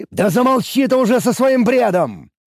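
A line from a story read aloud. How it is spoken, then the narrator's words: Barked. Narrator (Russian): рявкнул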